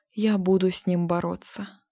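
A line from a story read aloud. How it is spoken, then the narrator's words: Yawning mumble. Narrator (Russian): зевал, бормотал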